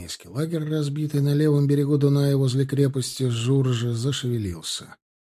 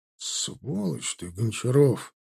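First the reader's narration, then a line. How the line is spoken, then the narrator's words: Grumbled. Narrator (Russian): проворчал подпоручик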